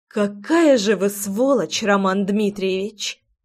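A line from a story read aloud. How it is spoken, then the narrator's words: Through gritted teeth. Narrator (Russian): процедила я, понимая, что терять уже нечего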